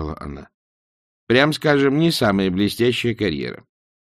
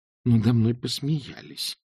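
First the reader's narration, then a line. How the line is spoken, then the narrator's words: Mumbling. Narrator (Russian): пробормотала Эск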